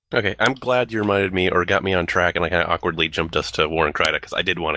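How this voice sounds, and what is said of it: Usual voice. Nothing is said of it.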